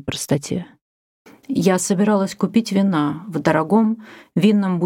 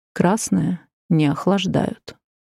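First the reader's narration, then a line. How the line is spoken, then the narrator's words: Purring. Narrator (Russian): промурлыкали мягкие ботинки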